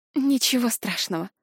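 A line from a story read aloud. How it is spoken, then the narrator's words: Forced, strained. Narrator (Russian): усилием воли выдавила я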